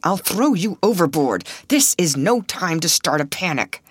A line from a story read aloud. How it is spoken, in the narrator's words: cried Paul in a fierce whisper